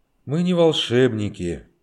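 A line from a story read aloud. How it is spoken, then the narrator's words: Gloomy. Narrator (Russian): мрачно сказал Боженко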